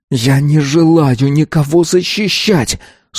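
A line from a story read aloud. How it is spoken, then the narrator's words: Boy hissing again. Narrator (Russian): снова прошипел мальчик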